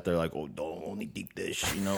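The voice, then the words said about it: Weak attempted Chicago accent, sounds New York. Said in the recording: “the guy sounded like he's from New York talking about deep dish ... I can't do the Chicago accent.”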